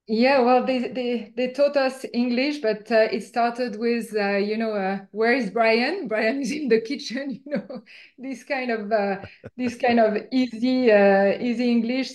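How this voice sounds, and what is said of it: French accent. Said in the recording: “You're obviously from France ... It's difficult to hide with my accent ... my accent stayed with me”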